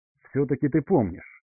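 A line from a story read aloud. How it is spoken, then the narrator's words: Snorting, less irritated. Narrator (Russian): фыркнула, но уже не так раздраженно, Морриган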